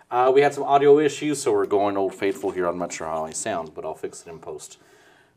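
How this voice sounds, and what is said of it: Somber, monotone voice. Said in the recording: “very somber, very monotone voice today”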